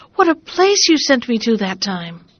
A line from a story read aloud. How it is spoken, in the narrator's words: cried she